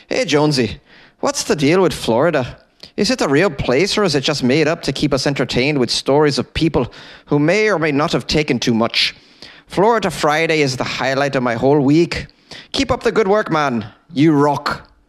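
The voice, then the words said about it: Put-on Irish accent, not great. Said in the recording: “Maybe I should read this in an Irish accent. I don't do a great Irish accent ... rate my Irish accent ... whether or not this was an appropriate Irish accent”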